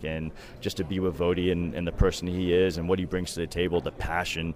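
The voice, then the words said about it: Thick Massachusetts accent. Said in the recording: “you don't have a West Coast accent... I got that Massachusetts accent, and it's real and it's thick”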